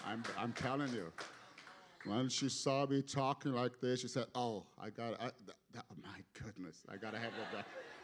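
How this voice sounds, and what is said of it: Speaks with a foreign accent. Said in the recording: “Are you picking up my accent? ... my accent”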